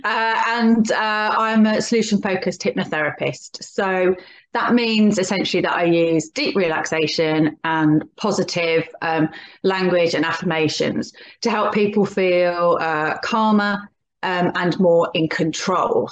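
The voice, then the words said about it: Birmingham English accent. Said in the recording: “I'm originally from Birmingham, which you can probably tell from my accent.”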